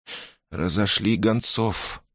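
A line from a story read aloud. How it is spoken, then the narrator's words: Cold command. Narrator (Russian): холодно приказала принцесса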